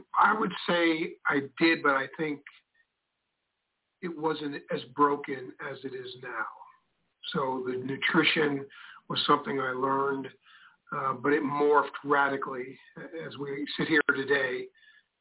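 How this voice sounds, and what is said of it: New York accent. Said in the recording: “I'm a New Yorker, as you can tell by my accent”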